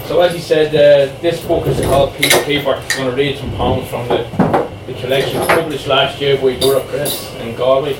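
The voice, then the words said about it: Dublin Irish accent. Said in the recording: “As you can tell from the accent, I'm from Dublin.”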